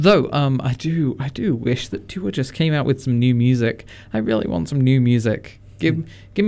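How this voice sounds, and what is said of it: Usual voice. Nothing is said of it.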